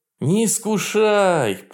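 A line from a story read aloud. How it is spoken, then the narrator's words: Groaning. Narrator (Russian): простонал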